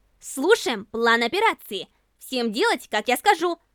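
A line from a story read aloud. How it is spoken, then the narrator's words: Commanding tone. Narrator (Russian): Начальственным тоном произнесла она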